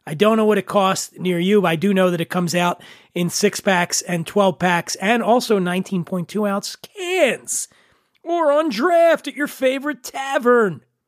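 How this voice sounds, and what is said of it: Nasal, congested voice. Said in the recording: “Hopefully one of these weeks I'm going to have my old voice back, sans nasal twang.”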